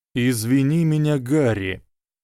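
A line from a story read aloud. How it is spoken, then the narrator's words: Sighing. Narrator (Russian): вздохнул Дамблдор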